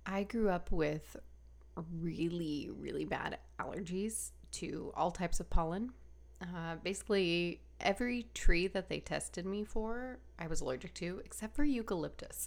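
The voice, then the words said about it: Slightly stuffy, congested voice. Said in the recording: “I sound a little stuffy”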